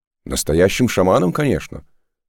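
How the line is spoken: Proud exclamation. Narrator (Russian): гордо воскликнул Саош

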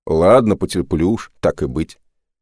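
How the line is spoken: Curt, displeased. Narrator (Russian): недовольно бросил он

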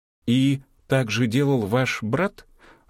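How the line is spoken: Timid question. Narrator (Russian): робко спросила деликатная Полина

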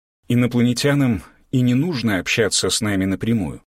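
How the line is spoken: Calm reasoned teacher. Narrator (Russian): спокойно и рассудительно начал великий учитель

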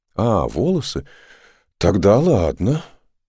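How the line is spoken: Relieved sigh. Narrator (Russian): облегченно вздохнул Саош

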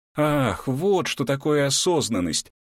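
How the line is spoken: Emotional joyful exclamation. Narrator (Russian): эмоционально воскликнула Анастасия

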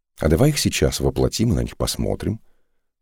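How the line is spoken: Conspiratorial whisper. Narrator (Russian): заговорщическим тоном шепнул Мусаош

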